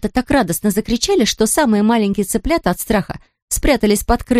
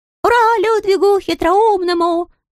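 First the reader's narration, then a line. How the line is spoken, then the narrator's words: Group squeaking and cackling. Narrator (Russian): запищали, закудахтали все остальные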